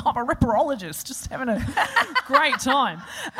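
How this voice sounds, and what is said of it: Put-on Australian accent. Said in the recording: “I love your Australian accent”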